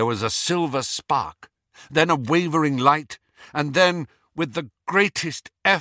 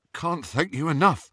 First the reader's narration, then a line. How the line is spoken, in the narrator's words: said Ron shakily